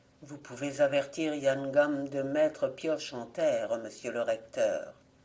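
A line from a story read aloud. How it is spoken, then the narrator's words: Almost cheerful. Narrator (French): il ajouta d'un ton presque gai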